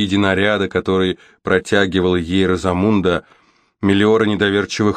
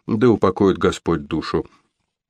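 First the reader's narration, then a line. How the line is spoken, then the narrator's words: Habitual mutter. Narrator (Russian): Корнуолка пробормотала по привычке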